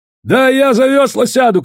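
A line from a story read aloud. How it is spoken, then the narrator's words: Shouting. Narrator (Russian): кричал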